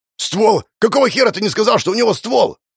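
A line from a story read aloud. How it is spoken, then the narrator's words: Man's angry yell. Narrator (Russian): Второй мужик заорал на сопляка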